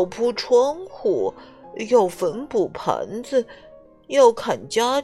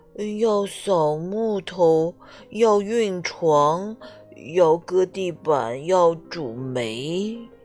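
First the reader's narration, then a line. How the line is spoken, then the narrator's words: Drowsy sighing. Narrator (Chinese): 懒惰先生迷迷糊糊的叹了口气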